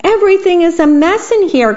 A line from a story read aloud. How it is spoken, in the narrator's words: cried the worm